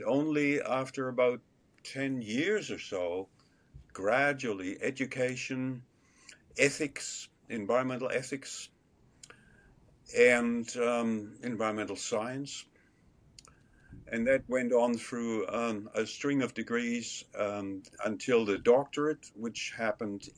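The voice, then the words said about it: German accent. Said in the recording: “accent is a little bit of New Zealander, but a fair bit of German still. ... I hear the German. I don't hear the New Zealand accent in there”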